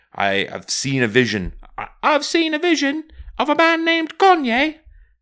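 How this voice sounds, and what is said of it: Imitates another person's accent. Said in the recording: “This is definitely David Bowie's accent... It does sound like.”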